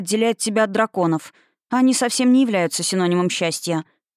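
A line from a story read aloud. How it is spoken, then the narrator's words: Grumbling. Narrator (Russian): проворчала я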